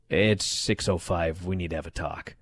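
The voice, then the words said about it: Deep radio announcer voice. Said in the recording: “in my deep radio voice”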